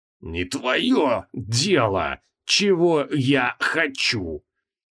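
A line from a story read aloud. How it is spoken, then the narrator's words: Through gritted teeth. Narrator (Russian): Процедил Креол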